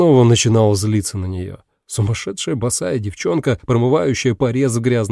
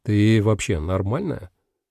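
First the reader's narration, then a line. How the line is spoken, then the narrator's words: Calm, casual tone. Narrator (Russian): Я задал этот вопрос спокойным голосом, так, как будто погодой поинтересовался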